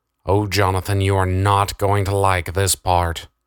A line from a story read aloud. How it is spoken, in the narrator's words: said Darren